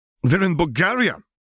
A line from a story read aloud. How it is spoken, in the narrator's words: Gillert snapped irritably